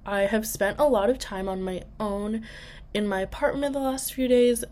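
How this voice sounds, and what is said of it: Sick, rough-sounding voice. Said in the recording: “I am getting over being really sick, and so I sound awful,”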